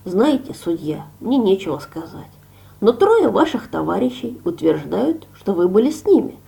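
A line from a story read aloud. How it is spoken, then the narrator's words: Hesitant mumble. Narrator (Russian): Наконец он промямлил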